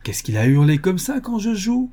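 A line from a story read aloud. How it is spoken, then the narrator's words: Indignant exclamation. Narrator (French): s'écriait-il, indigné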